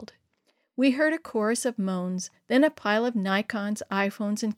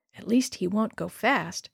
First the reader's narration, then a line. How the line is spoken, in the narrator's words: she whispered